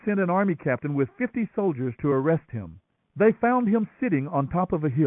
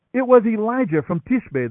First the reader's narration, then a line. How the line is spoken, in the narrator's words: the king exclaimed